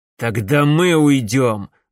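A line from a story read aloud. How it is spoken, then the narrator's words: Angry. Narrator (Russian): злобно произнес Макс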